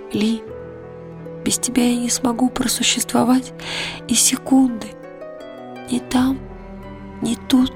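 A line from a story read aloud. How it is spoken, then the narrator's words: Whispered reply. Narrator (Russian): шепнула она в ответ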